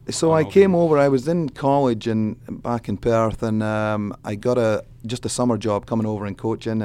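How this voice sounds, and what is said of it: Scottish accent. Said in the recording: “your accent. You're from Perth, Scotland”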